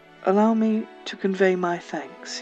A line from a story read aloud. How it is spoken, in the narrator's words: he purred